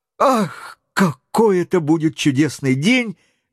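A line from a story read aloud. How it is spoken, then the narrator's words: Delighted exclamation. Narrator (Russian): воскликнул, сияя восторгом, Роберт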